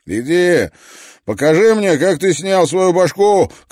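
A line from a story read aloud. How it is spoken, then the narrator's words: Shout. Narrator (Russian): крикнул он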